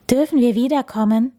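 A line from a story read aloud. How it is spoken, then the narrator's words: Plain. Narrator (German): fragte der Hase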